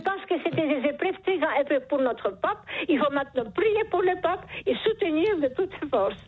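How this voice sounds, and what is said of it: Speaks with a charming accent. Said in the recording (French): “Vous avez un charmant accent ... ce joli accent”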